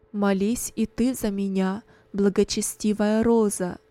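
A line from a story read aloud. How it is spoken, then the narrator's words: Plain. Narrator (Russian): сказал он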